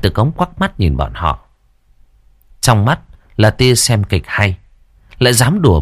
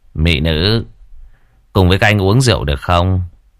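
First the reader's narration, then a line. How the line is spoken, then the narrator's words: Smiling rough man. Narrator (Vietnamese): một tên trông rất thô tráng liền mỉm cười nói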